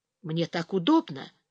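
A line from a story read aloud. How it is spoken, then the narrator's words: Whisper. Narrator (Russian): тоже прошептал Ярослав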